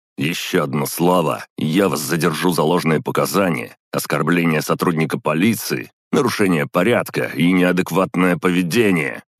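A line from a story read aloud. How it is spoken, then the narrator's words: Barked shout. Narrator (Russian): гаркнул Жаров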